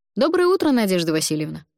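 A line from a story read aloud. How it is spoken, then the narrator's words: Cheerful student greeting. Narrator (Russian): бодро поздоровался со мной первокурсник Миша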